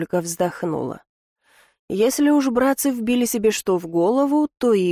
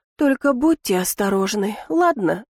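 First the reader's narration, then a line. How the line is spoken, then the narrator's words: Pleading. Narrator (Russian): взмолилась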